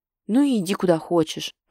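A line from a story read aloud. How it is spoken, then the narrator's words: Irritated growl. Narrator (Russian): Раздраженно рычу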